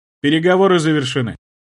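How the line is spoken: Calm. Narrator (Russian): спокойно произнес я

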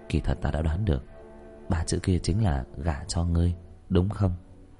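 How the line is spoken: Whispering in ear. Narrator (Vietnamese): Diệp Thiếu Dương môi thì thầm vào tai nàng

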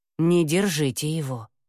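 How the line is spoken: Grim demand. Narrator (Russian): мрачно потребовала Яга

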